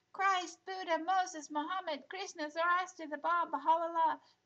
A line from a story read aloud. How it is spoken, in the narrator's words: the children all shouted at once